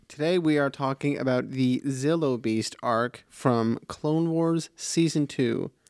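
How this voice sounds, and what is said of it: Flat monotone delivery. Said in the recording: “you sound so excited about that ... You just sounded really monotone”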